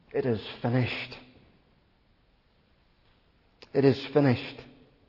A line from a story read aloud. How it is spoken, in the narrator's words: And now he cries